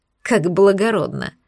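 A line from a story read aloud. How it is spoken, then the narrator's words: Scoffing snort. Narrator (Russian): фыркнула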